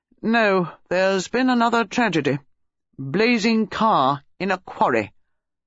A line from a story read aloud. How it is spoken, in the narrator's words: Sir Henry said gravely